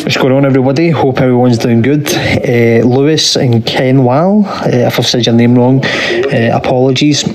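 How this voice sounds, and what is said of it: Noticeable accent. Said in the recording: “hopefully you could understand my accent as well”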